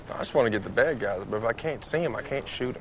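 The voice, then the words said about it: Convincing put-on accent, Bradley Cooper. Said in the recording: “pretty convincing accent for Bradley Cooper”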